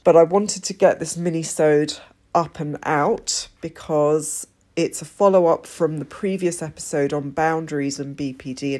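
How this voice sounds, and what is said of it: Congested voice from a cold. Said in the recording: “I sound a bit different than usual, and that's because I'm coming down with a cold”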